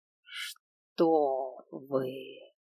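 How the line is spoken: Purring dragon. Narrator (Russian): Практически промурлыкал дракон

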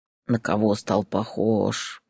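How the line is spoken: Grumbling. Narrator (Russian): проворчал он

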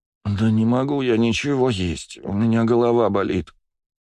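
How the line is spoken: Moaning. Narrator (Russian): простонала Кристина

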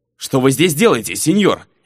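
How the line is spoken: Sharp, curt. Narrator (Russian): Резко бросил тот, что стоял у окна

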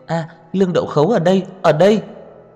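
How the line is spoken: Excited girl shouting. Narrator (Vietnamese): Nữ sinh kia kích động hét lên

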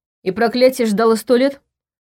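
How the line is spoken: Snorted. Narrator (Russian): фыркнул Ваня

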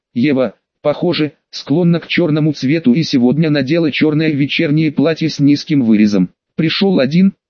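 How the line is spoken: Plain. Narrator (Russian): спросила она

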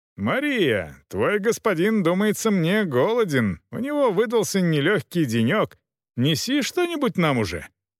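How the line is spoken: Shouted toward kitchen. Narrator (Russian): Роха кричал на кухню

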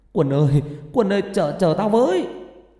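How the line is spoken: Shouting. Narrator (Vietnamese): hét lên

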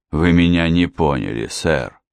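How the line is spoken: Calm. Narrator (Russian): спокойно произнес инспектор Хемингуэй

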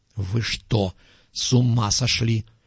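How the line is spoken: Hissed. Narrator (Russian): прошипел профессор

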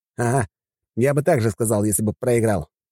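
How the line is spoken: Snorted. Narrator (Russian): фыркнул

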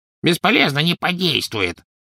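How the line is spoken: Grumbling. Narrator (Russian): проворчал гоблин

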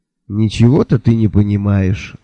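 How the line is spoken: Sigh. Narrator (Russian): вздохнул я

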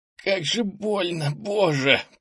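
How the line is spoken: Moaning in pain. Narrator (Russian): простонал он

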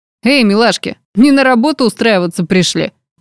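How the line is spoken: Laughing. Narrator (Russian): Рассмеялся охранник

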